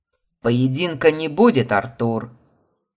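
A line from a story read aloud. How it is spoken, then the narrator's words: Mocking shout. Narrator (Russian): крикнул мне в спину Марат, и в его голосе послышалась ехидная насмешка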